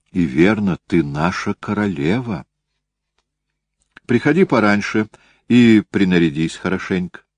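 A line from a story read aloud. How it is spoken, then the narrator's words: Calm unfeeling exclamation. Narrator (Russian): так спокойно и с такой великолепной бесчувственностью, истой куртизанки, что Дюваль-Нобль воскликнула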